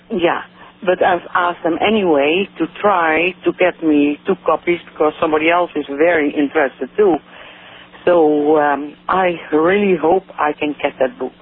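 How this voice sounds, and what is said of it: Dutch accent. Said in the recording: “I hear an accent in you. Where are you from? ... From Holland.”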